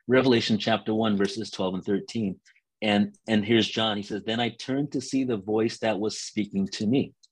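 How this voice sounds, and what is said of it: Hoarse, failing voice. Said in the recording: “I'm losing my voice a bit here”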